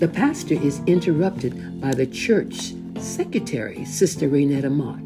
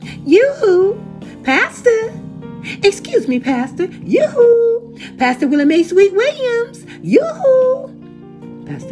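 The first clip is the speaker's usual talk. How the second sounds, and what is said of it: High-pitched southern-accented voice. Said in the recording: “a high pitched voice with a southern accent”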